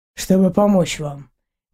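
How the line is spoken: Calm reply. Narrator (Russian): спокойно ответил мужчина

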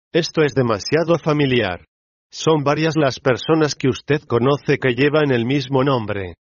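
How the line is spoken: Onlooker exclaiming. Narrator (Spanish): exclamó uno de los presentes

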